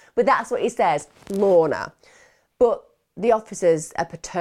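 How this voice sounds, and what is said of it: Usual voice. Nothing is said of it.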